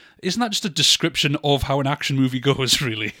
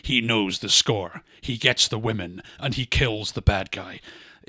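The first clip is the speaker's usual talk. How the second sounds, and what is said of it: Dramatic movie trailer narrator voice. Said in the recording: “should I do it in my trailer voice?”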